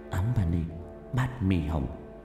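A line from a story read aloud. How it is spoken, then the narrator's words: Muttering. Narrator (Vietnamese): miệng lẩm bẩm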